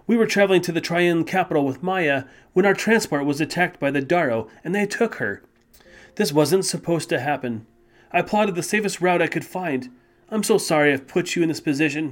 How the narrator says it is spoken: said, sighing loudly

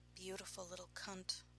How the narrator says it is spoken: Bannon murmured

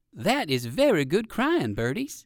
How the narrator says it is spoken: said Uncle Wiggily

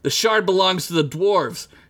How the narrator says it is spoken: she screamed

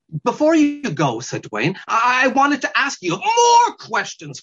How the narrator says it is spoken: screamed the weasel

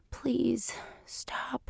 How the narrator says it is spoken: she whispers

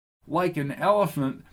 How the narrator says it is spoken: replied Lucy as she laughed

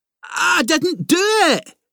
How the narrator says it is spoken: Ginger repeated more loudly

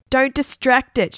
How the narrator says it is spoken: shouted Margaret

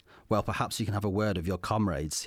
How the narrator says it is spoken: he said in a sardonic tone

